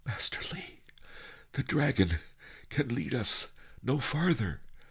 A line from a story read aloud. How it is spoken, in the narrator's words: panted